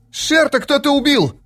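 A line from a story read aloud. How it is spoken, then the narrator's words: Shouting. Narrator (Russian): закричал он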